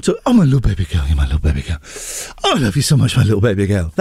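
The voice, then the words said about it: Doting baby-talk voice for pets. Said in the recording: “what voice do you use when you talk to Coco? ... That's how you talk to pets.”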